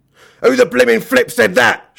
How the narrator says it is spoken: shouted Mr

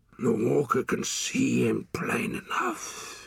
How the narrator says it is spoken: he muttered

